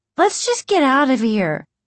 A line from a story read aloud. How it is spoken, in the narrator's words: Margaret exclaimed